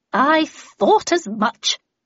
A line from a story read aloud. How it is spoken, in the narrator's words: she sneered